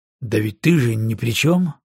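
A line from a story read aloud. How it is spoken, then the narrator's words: Fairly calm reply. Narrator (Russian): ответил он довольно спокойно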